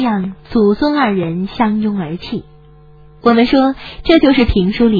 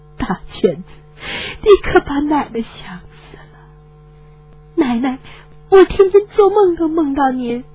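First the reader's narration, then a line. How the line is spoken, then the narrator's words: Sobbing old woman. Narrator (Chinese): 老太太呜呜地哭了起来……老泪纵横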